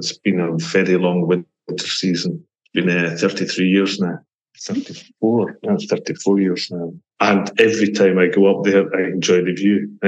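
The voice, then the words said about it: Scottish accent. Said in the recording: “people will be able to tell by my accent that I'm not a true Swiss. I was born and brought up in Scotland”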